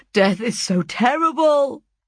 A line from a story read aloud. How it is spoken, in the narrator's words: cried